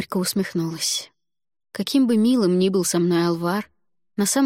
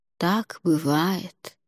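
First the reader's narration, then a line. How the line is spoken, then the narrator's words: Soft. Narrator (Russian): мягко произнес Алвар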